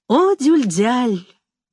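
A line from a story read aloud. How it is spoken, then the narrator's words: Affectionate. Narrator (Russian): ласково говорил Амет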